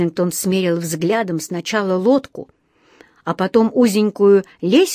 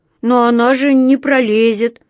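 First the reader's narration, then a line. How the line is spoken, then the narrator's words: Sad drawl. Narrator (Russian): грустно протянул он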